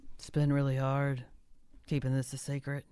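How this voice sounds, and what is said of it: Voice like a teenage boy. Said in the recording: “he sounds like your teenage son.”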